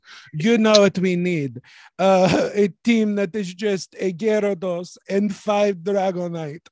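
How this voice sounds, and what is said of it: Poor put-on French accent. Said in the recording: “they're French ... my accent work is terrible”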